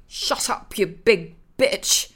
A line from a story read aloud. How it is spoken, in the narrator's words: he muttered